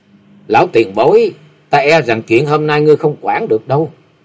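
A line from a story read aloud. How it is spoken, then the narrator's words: Young woman, cold. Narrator (Vietnamese): Hắc y thiếu nữ lạnh lùng nói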